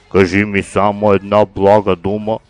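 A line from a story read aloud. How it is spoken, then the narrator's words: Deep booming voice. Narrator (Bulgarian): завибрирал с глибок корабен глас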